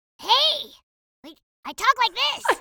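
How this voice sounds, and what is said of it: Cartoon character voice. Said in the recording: “Henry Hugglemonster... make sure you can do that voice for 4 hours straight... talk like that for 4 hours straight... Without blowing your vocal cords”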